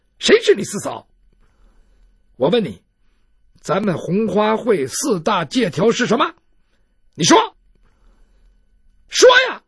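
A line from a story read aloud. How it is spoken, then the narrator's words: Angry. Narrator (Chinese): 骆宾是一脸的愤怒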